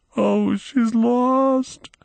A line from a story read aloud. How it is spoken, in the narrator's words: sobbed the little girl